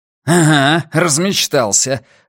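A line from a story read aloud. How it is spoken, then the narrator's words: Furious bark. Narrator (Russian): рявкнул Арни и вновь почувствовал в голосе настойчивый пульс ярости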